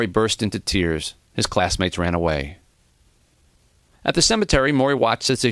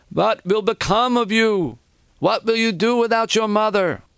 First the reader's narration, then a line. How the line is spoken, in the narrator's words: One of his aunts, a heavy-set woman, began to wail